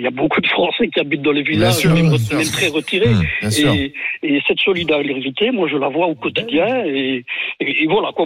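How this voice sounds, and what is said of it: Belgian French accent. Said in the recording (French): “vous êtes d'origine belge ou pas?... L'accent.”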